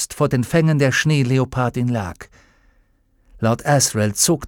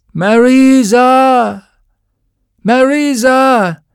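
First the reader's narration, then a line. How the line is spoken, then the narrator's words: Loud scream echoing in cave. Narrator (German): Laut gellte Lord Asriels Schrei durch die Höhle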